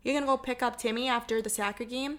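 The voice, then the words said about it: Put-on Minnesotan accent. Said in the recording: “I can do a Minnesotan accent.”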